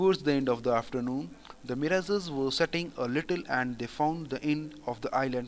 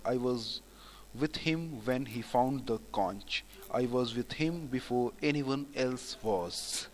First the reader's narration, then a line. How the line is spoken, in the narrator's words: Piggy was dejected at the refusal and murmured to himself